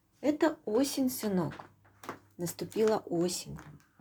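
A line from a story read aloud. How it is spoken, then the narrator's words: Plain. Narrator (Russian): ответила мама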